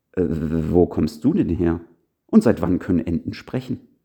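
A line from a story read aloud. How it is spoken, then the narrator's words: Flustered stammering. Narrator (German): stotterte überrumpelt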